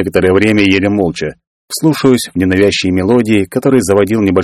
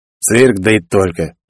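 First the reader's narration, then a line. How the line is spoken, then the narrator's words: Grumble. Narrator (Russian): буркнул Жикар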